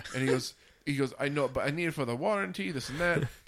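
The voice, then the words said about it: Badly put-on accent. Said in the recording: “That's my terrible accent.”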